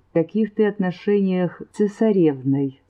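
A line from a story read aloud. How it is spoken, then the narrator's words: Businesslike question. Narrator (Russian): вновь деловым тоном спросил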